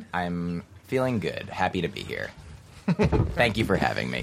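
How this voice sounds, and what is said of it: Deep radio voice. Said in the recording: “I bet he has good radio voice right now. ... Your voice is deep.”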